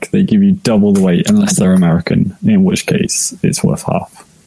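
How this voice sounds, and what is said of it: British accent. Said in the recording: “because you have a British accent”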